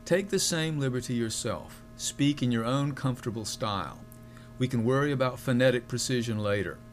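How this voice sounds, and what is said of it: American Southern accent. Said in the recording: “you'll forgive me if I pronounce Greek with a southern accent.”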